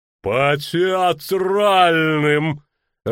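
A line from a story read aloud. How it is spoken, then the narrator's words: Laughing loudly. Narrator (Russian): расхохотался Хувинагель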